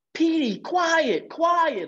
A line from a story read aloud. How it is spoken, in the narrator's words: I shouted